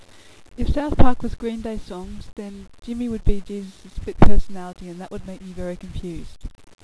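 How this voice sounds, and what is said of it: Australian accent. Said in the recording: “my accent, which is Australian”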